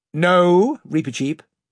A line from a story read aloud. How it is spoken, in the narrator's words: said the King very firmly